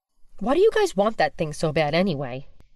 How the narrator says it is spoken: Mike asked

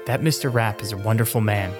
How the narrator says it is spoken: one said

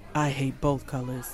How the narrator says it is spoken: Anthony sighed

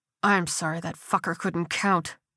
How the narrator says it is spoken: Kersey muttered

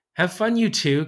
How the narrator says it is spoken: Cassie laughed as she snuck Michaela out of the kitchen, giggling

